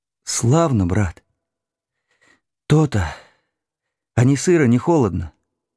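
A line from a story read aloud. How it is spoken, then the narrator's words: Asked with deep sigh. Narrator (Russian): человек спрашивал, глубоко вздохнув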